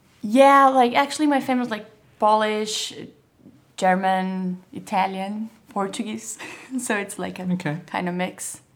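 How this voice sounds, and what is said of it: Brazilian accent with French tinge. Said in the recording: “your Parisian accent is fresh? ... You sound more French to me when you came through the door than Brazilian”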